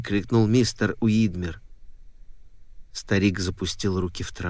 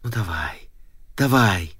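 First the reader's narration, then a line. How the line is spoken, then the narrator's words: Whisper. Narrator (Russian): Мистер Уидмер шептал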